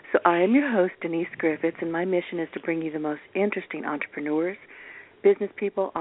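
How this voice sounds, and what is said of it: Slightly raspy voice. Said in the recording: “I'm a little bit raspy.”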